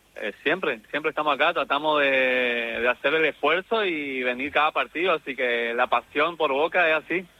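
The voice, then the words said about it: Non-Rioplatense Argentine regional accent. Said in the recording (Spanish): “te noto alguna tonada, algo ajena a la rioplatense”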